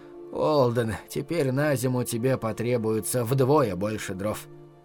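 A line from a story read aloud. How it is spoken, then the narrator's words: Muttered. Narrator (Russian): пробормотала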